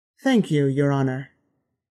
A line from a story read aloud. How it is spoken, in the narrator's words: Kane said